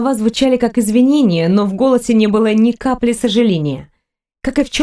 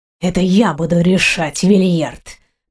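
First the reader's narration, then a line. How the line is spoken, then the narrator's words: Hissing. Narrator (Russian): прошипел он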